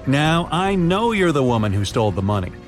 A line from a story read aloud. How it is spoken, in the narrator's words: the detective said